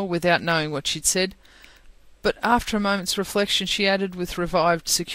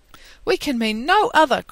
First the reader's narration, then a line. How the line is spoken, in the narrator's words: cried Lucy, smiling